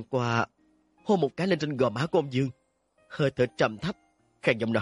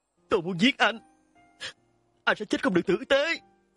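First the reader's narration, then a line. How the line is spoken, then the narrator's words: Screaming, sobbing. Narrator (Vietnamese): Ôn Dương khóc thét lên, khóc lóc mà nói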